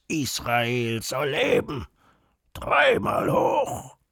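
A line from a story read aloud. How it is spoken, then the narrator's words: Bursting into a roar. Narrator (German): er brüllt los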